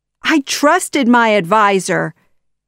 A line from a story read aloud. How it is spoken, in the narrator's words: the Sultan cried